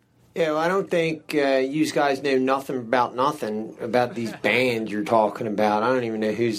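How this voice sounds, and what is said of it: Impression of a radio call-in caller. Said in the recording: “his impersonation of like someone calling in a sports show or a show about music”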